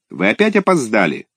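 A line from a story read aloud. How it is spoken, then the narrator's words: Stern student question. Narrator (Russian): строго спросил дежурный ученик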